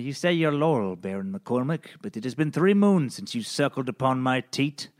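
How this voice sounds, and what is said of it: Unidentifiable put-on accent. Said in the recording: “I don't know what that accent was.”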